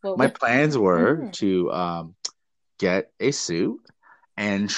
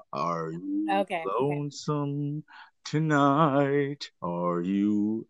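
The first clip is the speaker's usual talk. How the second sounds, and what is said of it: Sung imitation of another person's voice. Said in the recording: “let me do my impression of Elvis right now... That's a pretty good Elvis impersonation.”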